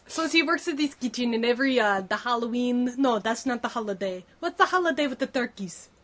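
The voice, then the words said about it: Undefinable shifting put-on accent. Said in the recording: “I have an undefinable accent. ... That is exactly how I would describe it. ... You've gone from like Spanish to German now to Italian.”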